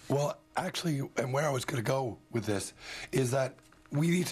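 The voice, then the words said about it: Whispering. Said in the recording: “I'm going to switch to my whisper voice now.”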